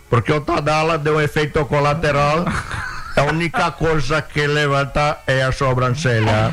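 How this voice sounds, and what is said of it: Imitates another person's voice. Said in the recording (Portuguese): “imitação do Ancelotti, que a gente vê que tem muito talento”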